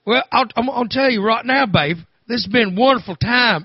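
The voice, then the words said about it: Imitates another person's voice and accent. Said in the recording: “everyone who's around him starts talking like him ... this weird Babe Winkleman accent”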